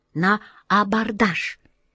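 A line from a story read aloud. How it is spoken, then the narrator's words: Soft prompting. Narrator (Russian): тихонько подсказал тельняшка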